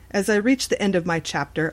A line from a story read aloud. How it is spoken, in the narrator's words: Alexa laughed again